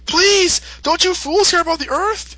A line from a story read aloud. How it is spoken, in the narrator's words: Goku's just pleading